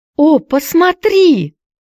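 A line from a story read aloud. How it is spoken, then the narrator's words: Excited shouting. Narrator (Russian): взволнованно кричала Хайди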